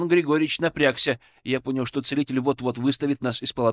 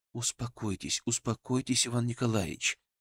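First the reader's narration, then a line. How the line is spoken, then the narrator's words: Soft, gentle. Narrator (Russian): мягко сказал я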